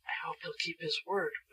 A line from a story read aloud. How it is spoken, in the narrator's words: whispered Betsy to Shaggy